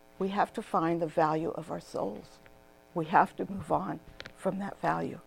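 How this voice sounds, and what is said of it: Hoarse, fading voice. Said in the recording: “I'm just losing my voice.”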